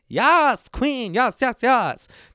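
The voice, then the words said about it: Imitates another person's voice. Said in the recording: “my impersonation of Jonathan from Queer Eye”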